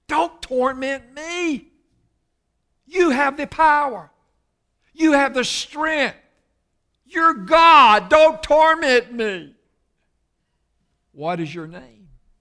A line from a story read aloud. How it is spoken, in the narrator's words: he's pleading with Christ